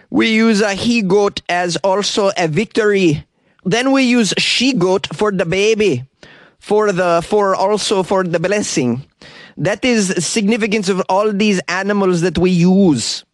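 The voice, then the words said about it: Put-on foreign accent. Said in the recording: “I don't know if that's the proper accent for somebody who practices Santeria”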